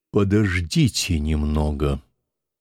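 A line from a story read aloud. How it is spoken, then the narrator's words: Quiet, solemn. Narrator (Russian): сказал я тихим и торжественным голосом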